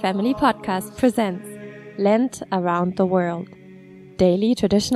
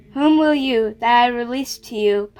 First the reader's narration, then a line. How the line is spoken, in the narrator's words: Pilate cried